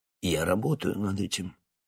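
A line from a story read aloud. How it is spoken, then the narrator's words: Calm. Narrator (Russian): спокойно произнес профессор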